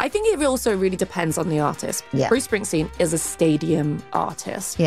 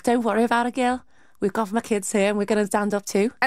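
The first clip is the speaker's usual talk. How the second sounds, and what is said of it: Good put-on Liverpool accent. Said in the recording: “that was a very good Liverpool accent.”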